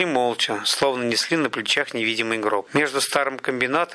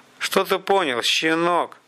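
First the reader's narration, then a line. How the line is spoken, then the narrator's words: Muttered through teeth. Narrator (Russian): процедил тот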